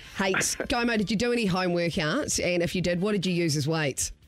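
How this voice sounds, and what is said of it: New Zealand accent. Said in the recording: “Sorry, accent. accent. I should. I do know my Kiwi accents”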